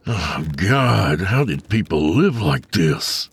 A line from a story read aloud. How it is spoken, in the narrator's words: he groaned